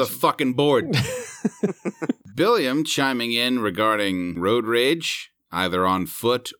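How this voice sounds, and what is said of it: Usual voice. Nothing is said of it.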